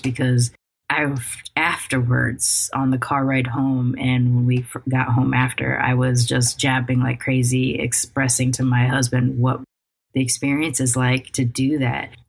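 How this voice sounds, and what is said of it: Hoarse voice. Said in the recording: “I'm so exhausted. I can't tell if my voice, I'm pretty sure my voice is hoarse”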